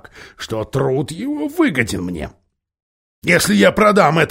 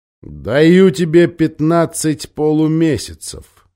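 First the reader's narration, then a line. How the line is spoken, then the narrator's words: Plain. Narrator (Russian): сказал Тархан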